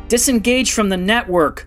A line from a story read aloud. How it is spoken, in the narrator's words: Rendra shrieked as the explosive blast rocked the passageway